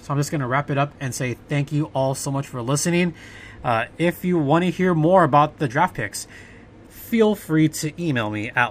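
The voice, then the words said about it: Worn-out voice. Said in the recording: “I've been talking for a while. You can probably hear it in my voice.”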